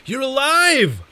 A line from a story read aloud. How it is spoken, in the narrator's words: I shouted